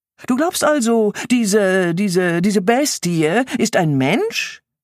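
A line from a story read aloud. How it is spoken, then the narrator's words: Mocking. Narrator (German): höhnte Bruder Gadra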